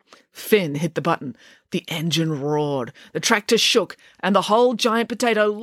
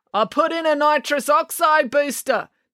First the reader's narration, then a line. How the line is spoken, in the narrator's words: Neil yelled over the sound of the engine